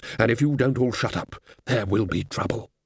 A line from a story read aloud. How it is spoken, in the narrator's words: said Ridcully in a low and level voice